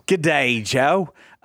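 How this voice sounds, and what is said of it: Convincing put-on Australian accent. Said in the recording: “very convincing Australian accent”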